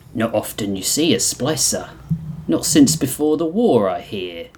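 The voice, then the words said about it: Italian-accented character voice. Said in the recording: “doing my Italian voice”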